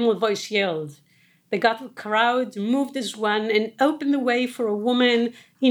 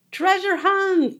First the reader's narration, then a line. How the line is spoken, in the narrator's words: Isabella shouted